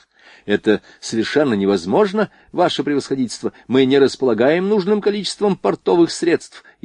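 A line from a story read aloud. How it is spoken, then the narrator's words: Frightened admiral. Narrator (Russian): испуганно проговорил адмирал Греве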